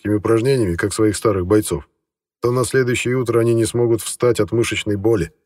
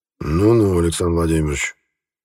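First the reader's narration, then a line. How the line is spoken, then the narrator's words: Grumbled, governor. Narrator (Russian): проворчал наместник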